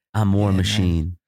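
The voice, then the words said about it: Imitates another person's voice. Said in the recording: “good Don Cheadle impression”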